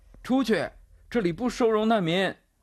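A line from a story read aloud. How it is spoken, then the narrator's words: Shouting while running. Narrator (Chinese): 阿多纳多副神父跑着喊着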